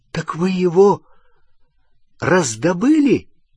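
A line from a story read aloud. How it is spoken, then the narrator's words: Exclamation. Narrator (Russian): воскликнул Рон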